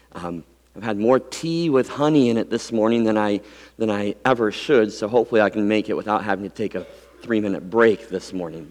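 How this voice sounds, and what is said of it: Weak, fading voice. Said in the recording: “apologizing first for my voice... my voice has been disappearing on me”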